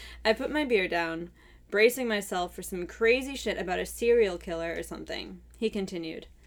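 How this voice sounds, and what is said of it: Usual voice. Nothing is said of it.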